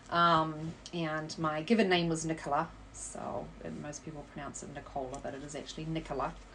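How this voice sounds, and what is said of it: New Zealand accent. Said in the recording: “based on that accent where you're from ... I am originally from New Zealand”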